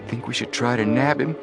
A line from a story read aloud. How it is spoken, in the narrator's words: Joe whispered